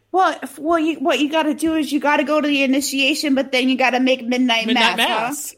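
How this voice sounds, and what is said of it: Speaks in a put-on accent. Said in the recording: “I knew that that accent would come out.”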